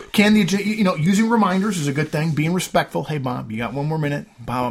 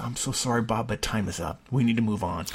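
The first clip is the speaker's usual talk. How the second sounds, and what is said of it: Lowered, softer apologetic voice. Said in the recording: “I lower my voice.”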